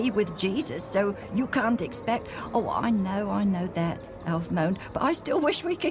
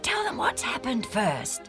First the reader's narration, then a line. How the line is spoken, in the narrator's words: Andronicus whispered to Junius